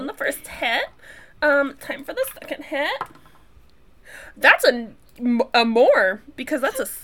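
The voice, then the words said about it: Put-on LA accent. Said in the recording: “What's with the fucking LA accent that's happening here?”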